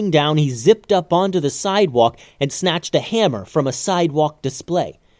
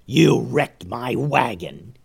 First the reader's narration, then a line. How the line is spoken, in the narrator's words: he growled